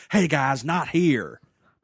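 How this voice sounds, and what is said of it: Imitates another person's voice. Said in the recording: “My Holly Hunter impression is very close to my Gary Busey impression”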